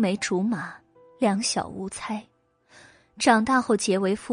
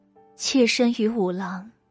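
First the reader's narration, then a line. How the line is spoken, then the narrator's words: Sighing. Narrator (Chinese): 姨娘叹了一口气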